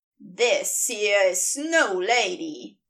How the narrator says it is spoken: he sneers

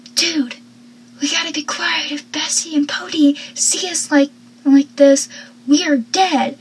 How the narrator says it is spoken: Dawson whispering so loudly, he goes

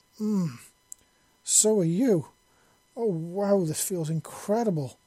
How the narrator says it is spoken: Malachi moaned

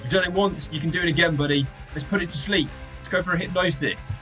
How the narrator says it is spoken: Felix shouts out to Inky

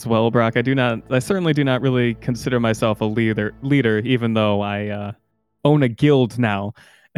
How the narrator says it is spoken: Riley uh, chuckles a little bit and says

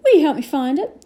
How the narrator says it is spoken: he asked eagerly

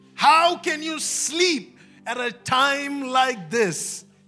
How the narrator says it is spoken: He shouted

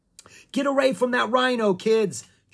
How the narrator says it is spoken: Jomo shouted

